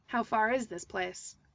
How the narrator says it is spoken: Toby asked gruffly

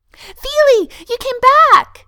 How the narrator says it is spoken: he chirps, burying his face against Thorin's shoulder

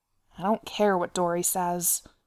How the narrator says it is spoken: Nori grumbled darkly

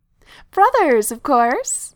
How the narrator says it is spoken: laugh is a source of great joy

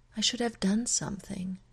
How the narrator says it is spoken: she says softly

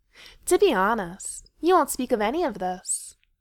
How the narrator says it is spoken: Feely called out, all lazy grace and confidence again

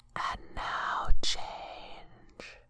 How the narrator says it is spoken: whispered the land

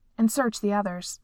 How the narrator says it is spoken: Seathna said curtly

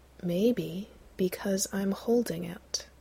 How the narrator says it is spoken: Gabriel says slowly

